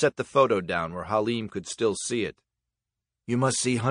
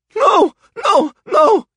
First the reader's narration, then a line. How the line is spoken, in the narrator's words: he cried